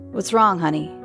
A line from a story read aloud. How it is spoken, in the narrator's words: her husband asked